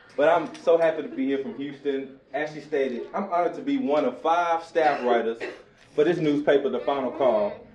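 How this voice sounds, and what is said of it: Southern Texas country twang. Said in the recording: “I'm from Houston, Texas ... my southern slang, country twang”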